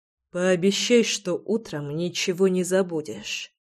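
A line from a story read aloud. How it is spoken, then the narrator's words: Hoarse mutter. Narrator (Russian): хрипло пробормотал Реми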